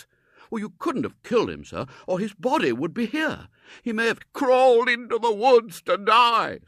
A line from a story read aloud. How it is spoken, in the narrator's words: supplied the colonel wildly